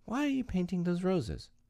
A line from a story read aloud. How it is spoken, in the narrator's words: said Alice, a little timidly